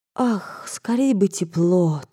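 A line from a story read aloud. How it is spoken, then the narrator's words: Princess's wistful whisper. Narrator (Russian): тоскливо шептала княжна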